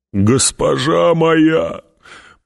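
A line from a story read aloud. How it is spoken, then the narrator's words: Moaning, holding back tears. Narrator (Russian): простонал Гурни, пытаясь сдержать вскипающие слезы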